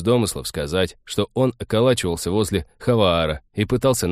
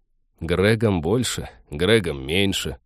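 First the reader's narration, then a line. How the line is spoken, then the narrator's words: Grumbled. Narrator (Russian): проворчал Тед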